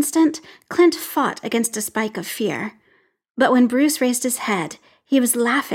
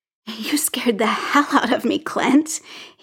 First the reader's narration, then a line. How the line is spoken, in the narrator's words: said, and the words dissolved into laughter